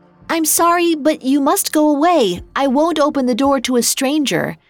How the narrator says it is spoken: She called out

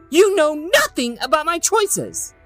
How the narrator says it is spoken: Erica screamed

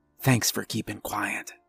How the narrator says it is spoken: I whispered

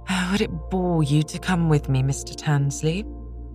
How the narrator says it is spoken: she turned with a sigh and said

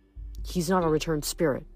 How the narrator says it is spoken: Nico murmured

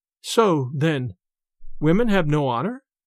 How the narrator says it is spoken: The young girl, turning very pale, faltered out

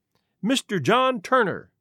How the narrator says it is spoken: he cried

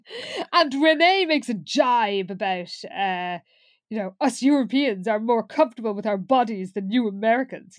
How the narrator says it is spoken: he says haughtily

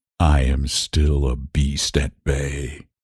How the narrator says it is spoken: he said in a low, hoarse voice

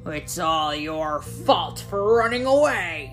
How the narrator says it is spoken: grumbled

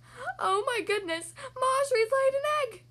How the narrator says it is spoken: he cried

